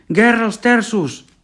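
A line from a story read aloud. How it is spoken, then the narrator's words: Shout. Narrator (Catalan): va cridar un altre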